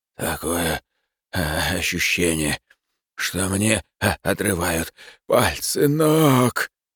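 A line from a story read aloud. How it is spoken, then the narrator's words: Barely audible wheeze. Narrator (Russian): еле слышно прохрипел он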